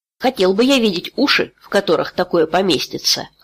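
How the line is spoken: Smirking grunt. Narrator (Russian): хмыкнул Халлор

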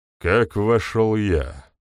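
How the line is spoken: Gloomy voice. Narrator (Russian): мрачно произнес Гризволд

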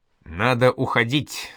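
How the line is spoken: Plain. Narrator (Russian): сказал Тихон

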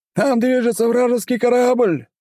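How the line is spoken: Yelling. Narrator (Russian): завопил он

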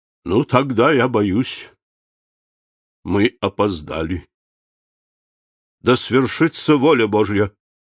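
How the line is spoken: Solemn, after a pause. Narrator (Russian): Он помедлил и, сняв шляпу, торжественно произнес

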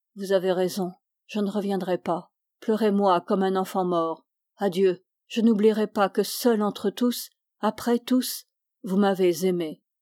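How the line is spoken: Low muffled voice. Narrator (French): Augustin dit, d'une voix sourde

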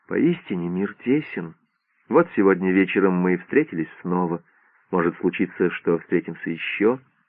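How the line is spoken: Soft gentle voice. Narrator (Russian): мягко сказала

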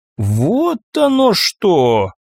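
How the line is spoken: Drawled. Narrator (Russian): протянула капитан

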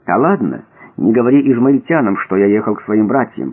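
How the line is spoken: Whisper. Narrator (Russian): прошептал Иосиф

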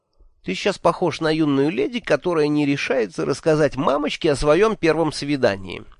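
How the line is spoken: Snide. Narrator (Russian): ехидно сказал

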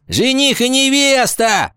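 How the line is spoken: Shout. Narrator (Russian): крикнула Гвоздева

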